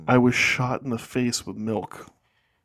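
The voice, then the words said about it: Slow, deliberate speech. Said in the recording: “say it slower”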